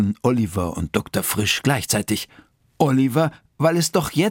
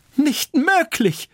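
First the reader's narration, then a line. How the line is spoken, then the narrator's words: Calling out. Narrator (German): rief Dr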